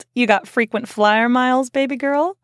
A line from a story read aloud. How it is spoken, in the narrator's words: he chuckled